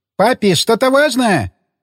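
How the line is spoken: Shouting. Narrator (Russian): прокричала Расита

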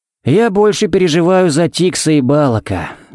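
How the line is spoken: Worried sigh. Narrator (Russian): вздохнул Харри

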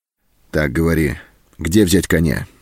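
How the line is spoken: Stern question. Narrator (Russian): строго спросил он

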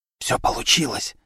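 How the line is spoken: Whispered reply. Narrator (Russian): также шепотом ответила Вера

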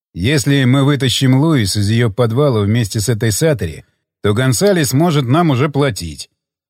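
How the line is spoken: Neutral voice. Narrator (Russian): сказал Джефф нейтральным голосом

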